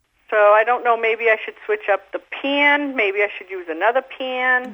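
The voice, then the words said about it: Massachusetts accent. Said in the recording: “Where are you from, girl? ... I'm from Massachusetts. ... you got a beautiful accent.”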